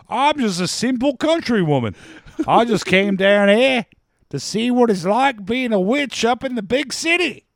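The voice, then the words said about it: Exaggerated, unconvincing Southern accent. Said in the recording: “does a Southern accent like an Australian talking about a country boy”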